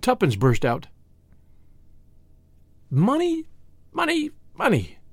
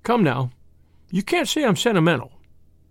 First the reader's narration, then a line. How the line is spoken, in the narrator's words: she added sharply